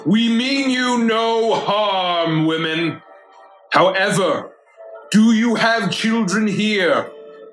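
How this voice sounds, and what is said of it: Booming magical character voice. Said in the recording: “my voice is going to boom”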